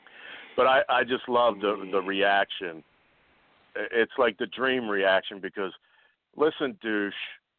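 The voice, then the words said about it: Rough voice from a cold. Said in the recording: “my voice is so effed up ... Still not good ... Got a little cold”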